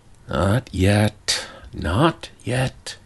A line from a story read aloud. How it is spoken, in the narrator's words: he murmured to himself